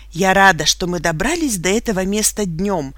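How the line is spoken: Exclaimed. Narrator (Russian): воскликнула Энн Бедингфилд

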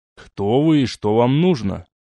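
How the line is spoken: Angry question. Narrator (Russian): сердито спросил Олег

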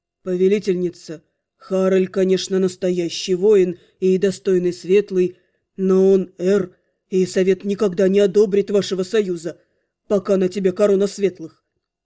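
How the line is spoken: Strained, forced out. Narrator (Russian): Мансель напрягся и побледнел, а затем выдавил

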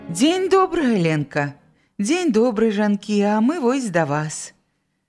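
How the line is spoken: Cheerful greeting. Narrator (Belarusian): жнеі весела прывіталіся

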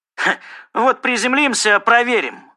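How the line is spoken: Scoffing grunt. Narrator (Russian): хмыкнул Янг

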